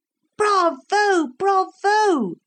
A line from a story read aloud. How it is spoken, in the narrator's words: shouted the crowd louder than ever